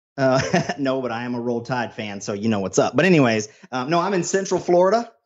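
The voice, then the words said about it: American southern accent. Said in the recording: “my brother with a southern accent”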